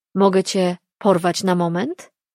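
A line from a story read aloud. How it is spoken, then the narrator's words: Plain question. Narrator (Polish): zapytał w końcu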